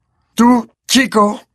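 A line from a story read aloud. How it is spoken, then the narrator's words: Growl. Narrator (Spanish): gruñó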